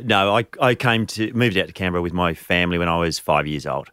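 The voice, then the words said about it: Welsh accent. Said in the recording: “you can tell by my accent, I'm Welsh ... it stands out”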